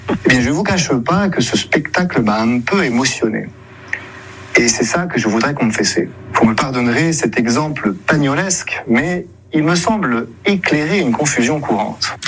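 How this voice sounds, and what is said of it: Weak imitation of Marseille accent. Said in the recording (French): “essaie d'imiter l'accent marseillais, mais sans se lâcher totalement. Ça donne l'accent, avouons-le, très bizarre, une imitation pas trop réussie”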